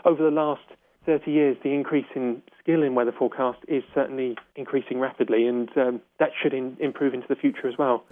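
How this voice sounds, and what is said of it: Non-native English accent. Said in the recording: “I hear that in your accent that you're not a native of these shores”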